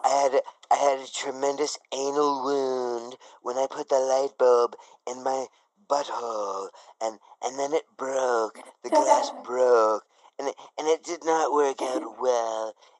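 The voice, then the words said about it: Imitates another person's voice. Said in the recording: “my Trump impersonation”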